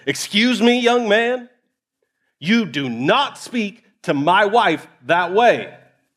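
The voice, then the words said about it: Stern, intimidating dad voice. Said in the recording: “put on my dad voice. ... There's a tone, there's a tenor of your voice that you turn on when we want to put just a little bit of fear in the child.”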